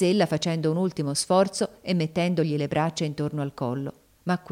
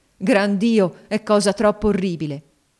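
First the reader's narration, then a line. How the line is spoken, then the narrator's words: Desperate exclamation. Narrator (Italian): esclamò egli con disperazione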